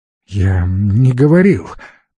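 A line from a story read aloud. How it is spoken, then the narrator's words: Glum, dejected. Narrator (Russian): уныло произнес Алекс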